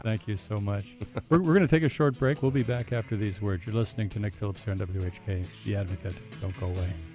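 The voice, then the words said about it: Smooth radio announcer voice. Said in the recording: “you have the smoothest voice in Northeast Ohio, the smoothest radio voice.”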